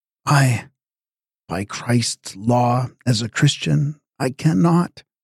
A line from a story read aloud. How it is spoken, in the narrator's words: in a broken voice, hardly above a whisper, he says